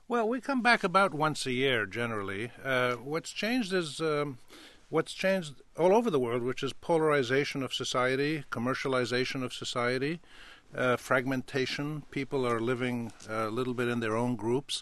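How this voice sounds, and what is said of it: American-sounding English accent. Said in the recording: “many listeners know from your accent, you've spent a fair amount of time in this country.”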